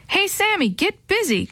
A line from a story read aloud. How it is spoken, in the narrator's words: Chris yelled from across the lawn